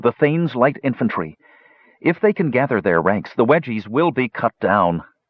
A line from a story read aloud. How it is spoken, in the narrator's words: observed Parian bitterly